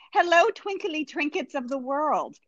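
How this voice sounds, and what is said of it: Put-on British accent. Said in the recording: “I'm going to try and do this without making up a British accent. I don't actually do one, but I think it's going to come out.”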